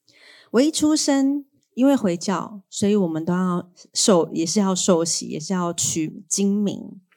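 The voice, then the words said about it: Mainlander accent, not Taiwanese. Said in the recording (Chinese): “我是个外省人，大家听我的口音就可以听得出来。其实我本来是不会讲台语。”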